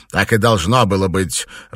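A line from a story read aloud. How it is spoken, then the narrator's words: Irritated, curt. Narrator (Russian): раздраженно бросил Алластер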